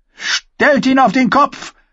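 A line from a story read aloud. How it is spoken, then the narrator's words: Roar. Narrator (German): brüllte Mace Tyrell an alle und doch niemanden im Besonderen gerichtet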